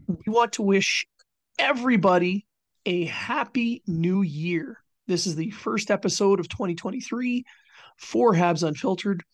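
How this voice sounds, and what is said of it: Hoarse, not fully recovered voice. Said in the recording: “my voice is still not quite 100%, but it was gone for several days”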